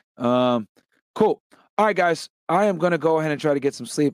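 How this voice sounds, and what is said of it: Tired, worn-out voice. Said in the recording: “I'm dying right now. You guys can hear it in my voice.”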